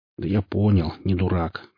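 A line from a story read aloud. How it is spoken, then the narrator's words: Mutter. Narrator (Russian): пробормотал Хор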